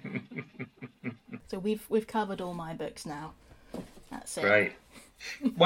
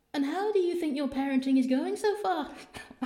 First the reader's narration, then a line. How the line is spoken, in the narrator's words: asked Perdita sweetly